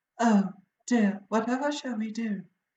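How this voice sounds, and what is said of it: Light falsetto woman's voice. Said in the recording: “Mary's voice ... I sounded like a Monty Python woman ... giving it a little falsetto”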